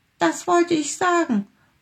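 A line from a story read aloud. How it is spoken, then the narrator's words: Little tiger calling out. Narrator (German): rief der kleine Tiger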